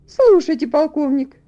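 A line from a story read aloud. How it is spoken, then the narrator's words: Woman's exclamation. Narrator (Russian): воскликнула леди Ингрэм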